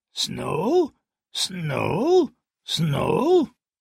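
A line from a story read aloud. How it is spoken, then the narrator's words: Raven murmuring. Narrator (German): Mormons Rabe murmelte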